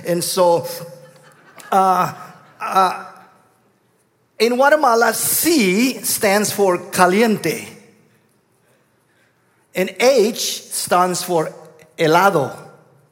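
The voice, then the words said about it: Guatemalan Spanish accent. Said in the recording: “I come from Guatemala, hence my southern accent.”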